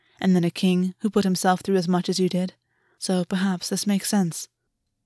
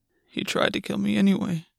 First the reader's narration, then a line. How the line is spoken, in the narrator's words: Gwen mumbled